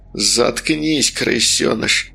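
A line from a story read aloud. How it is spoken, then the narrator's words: Hissed. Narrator (Russian): прошипел Стас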